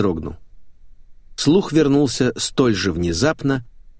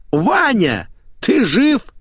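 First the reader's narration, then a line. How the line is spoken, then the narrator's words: Yelling. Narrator (Russian): Она заорала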